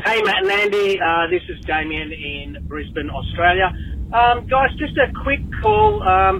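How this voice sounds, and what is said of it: Australian accent. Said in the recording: “a delightful Australian accent.”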